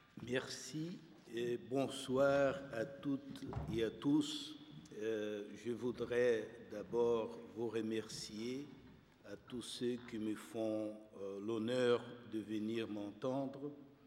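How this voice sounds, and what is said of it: Brazilian Portuguese accent in French. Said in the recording (French): “mon accent quelque peu tropical ... l'accent un peu carioca avec lequel nous parlons”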